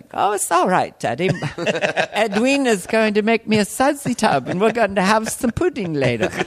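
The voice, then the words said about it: Dainty child's British accent. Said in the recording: “the kid actually was developing a British accent ... You sound kind of dainty”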